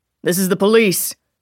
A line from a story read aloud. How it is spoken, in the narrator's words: Bauer called out